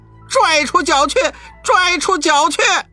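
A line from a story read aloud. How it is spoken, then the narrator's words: Shouting. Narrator (Chinese): 大圣叫道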